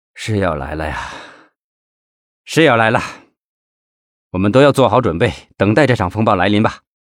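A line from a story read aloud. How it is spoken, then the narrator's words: Murmured after pause. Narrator (Chinese): 赵东林沉默片刻，喃喃地说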